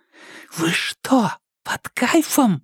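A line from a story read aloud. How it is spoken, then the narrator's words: Whispered shout. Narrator (Russian): шепотом закричала Кира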